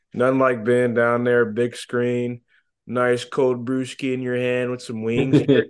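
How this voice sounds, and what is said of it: Put-on Wisconsin accent. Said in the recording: “Wisconsin accent there”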